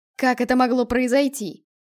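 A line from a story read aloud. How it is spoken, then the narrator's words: Yelling. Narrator (Russian): вопил представитель наставников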